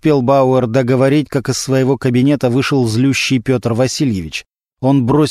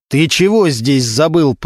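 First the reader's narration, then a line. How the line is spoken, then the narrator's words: Growled. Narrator (Russian): прорычал Регинский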